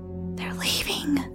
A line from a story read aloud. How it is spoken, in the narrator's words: whispered